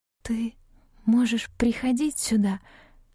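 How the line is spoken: Strained breathless exhale. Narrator (Russian): с трудом выдохнула я

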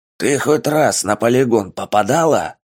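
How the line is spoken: Barking snap. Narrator (Russian): рявкнул

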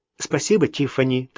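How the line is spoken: Hurried interruption. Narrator (Russian): торопливо прервала ее Сьюзен

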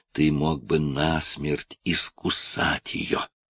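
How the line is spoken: Hissed. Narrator (Russian): прошипел

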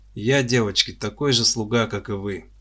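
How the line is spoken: Sad sigh. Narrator (Russian): печально вздохнул Лопатин

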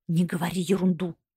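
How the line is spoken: Sharp, furious whisper. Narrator (Russian): резко прошептал с присущей ему яростью, очень зол

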